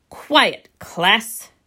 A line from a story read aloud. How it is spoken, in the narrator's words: His voice was loud and clear